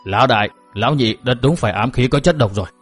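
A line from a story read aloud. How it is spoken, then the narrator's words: Muttering. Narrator (Vietnamese): Thích Tà lẩm bẩm nói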